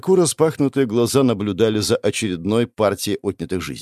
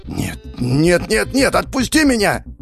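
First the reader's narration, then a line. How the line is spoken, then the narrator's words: Screaming. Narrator (Russian): Закричал я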